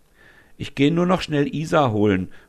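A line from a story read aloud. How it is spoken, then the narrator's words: Calling out. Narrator (German): ruft Tanja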